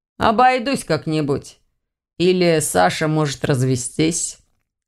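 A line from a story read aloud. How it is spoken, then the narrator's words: Gloomy suggestion. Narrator (Russian): мрачно предложил Ваня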